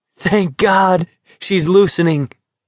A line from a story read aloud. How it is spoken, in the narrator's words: Curly exclaimed